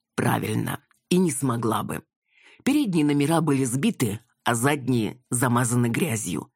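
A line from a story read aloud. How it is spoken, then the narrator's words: Plain. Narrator (Russian): ответил Анатолий Анатольевич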